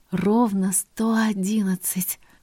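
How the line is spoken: Breathed, intimate. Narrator (Russian): выдохнул он в мои губы

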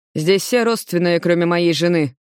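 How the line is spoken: Plain. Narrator (Russian): говорит Руслан

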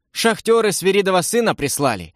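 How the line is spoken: Joyful explanation. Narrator (Russian): радостно пояснил Володька

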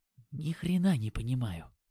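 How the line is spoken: Whisper. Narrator (Russian): шепнул нам Димон

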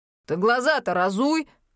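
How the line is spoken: Barking. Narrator (Russian): рявкнул смотритель

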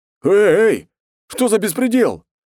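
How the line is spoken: Yelling again. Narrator (Russian): снова заорал Ист

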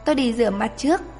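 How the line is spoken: Soft laugh. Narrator (Vietnamese): Chàng Loan Thần bật cười khẽ

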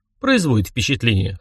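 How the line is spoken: Wry hmph. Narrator (Russian): хмыкнул я

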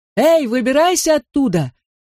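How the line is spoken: Father shouting. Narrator (Russian): опять закричал отец

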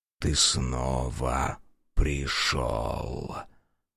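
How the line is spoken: Chilling whisper. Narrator (Russian): шепот, пробирающий до дрожи

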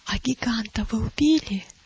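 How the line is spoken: Whispered question. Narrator (Russian): шепотом спросила милость у Матфея

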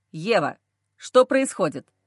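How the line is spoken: Menacing older man. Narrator (Russian): Грозным тоном говорит отец мужа

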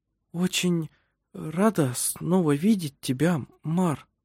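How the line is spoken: Slow, halting. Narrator (Russian): произнесла она медленно, запинаясь

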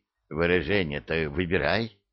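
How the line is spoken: Devil's hoarse croak after throat-clearing. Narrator (Russian): откашлявшись, прохрипел дьявол

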